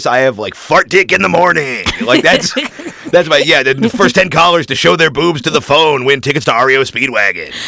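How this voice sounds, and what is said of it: Good radio voice. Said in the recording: “You got a good radio voice too.”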